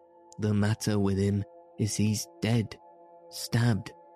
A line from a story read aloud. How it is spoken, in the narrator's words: replied Keiko in a hollow voice